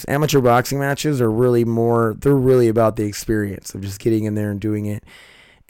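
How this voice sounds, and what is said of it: Strained, fading hoarse voice. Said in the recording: “My throat is leaving me. ... My voice is leaving me.”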